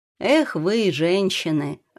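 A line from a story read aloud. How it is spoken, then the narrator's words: Laughing. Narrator (Russian): рассмеялся Сергей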